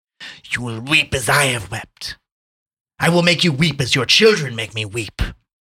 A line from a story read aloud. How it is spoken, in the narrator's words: Out of control, Bonacera shouted hoarsely